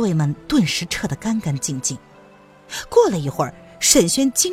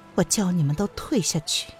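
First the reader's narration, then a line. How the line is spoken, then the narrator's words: Soft-spoken. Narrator (Chinese): 叶来夫人轻声的道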